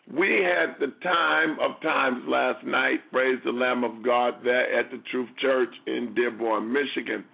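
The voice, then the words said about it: Raspy, hoarse voice. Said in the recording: “You hear my voice raspy? It's not raspy for just being raspy.”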